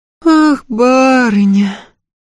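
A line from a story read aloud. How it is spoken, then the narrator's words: Sorrowful drawl. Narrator (Russian): горестно протянула Глафира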